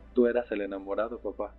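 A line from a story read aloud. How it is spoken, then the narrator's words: Laughing. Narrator (Spanish): le dije también riendo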